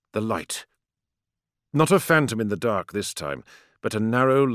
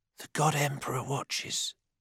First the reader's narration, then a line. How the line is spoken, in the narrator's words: he whispered, his eyes watering